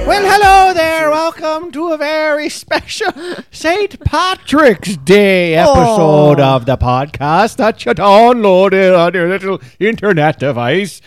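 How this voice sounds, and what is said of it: Put-on Irish accent. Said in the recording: “So I'm allowed to talk like this ... I'm losing the accent ... It's crazy how quickly Irish goes to pirate.”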